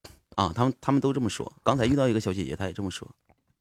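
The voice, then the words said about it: Mandarin with a northeastern flavor. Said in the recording (Chinese): “你是应该是东北人是吗？ ... 但但听这口音有点有点东北味儿”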